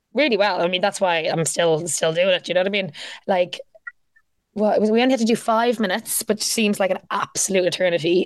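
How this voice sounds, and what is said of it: Irish accent. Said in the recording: “You have an Irish accent”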